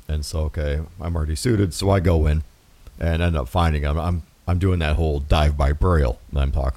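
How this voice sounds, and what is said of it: Usual voice. Nothing is said of it.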